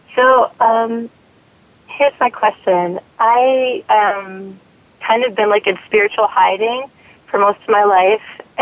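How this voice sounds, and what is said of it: Hoarse, screechy voice. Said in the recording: “I've got a little cold, so I'm like screeching. My voice—I kind of lost my voice,”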